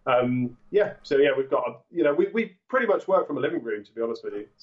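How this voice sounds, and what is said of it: English accent. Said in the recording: “you're obviously located in England, or I'm assuming so. That's bad on my part by your accent.”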